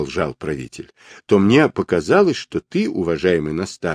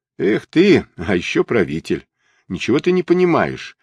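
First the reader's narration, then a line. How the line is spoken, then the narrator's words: Spoken through laughter. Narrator (Russian): проговорил он сквозь смех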